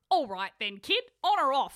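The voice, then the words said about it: Thick Cockney accent. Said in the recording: “He asked in a thick Cockney accent ... you're very good at accents”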